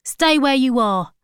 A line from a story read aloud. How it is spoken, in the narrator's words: shouted Archie